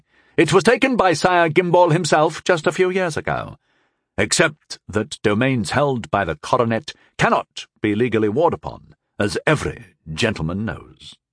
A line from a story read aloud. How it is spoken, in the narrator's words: Sir Kay said smoothly